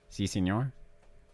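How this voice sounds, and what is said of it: Put-on Mexican accent. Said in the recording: “Mexican accent?”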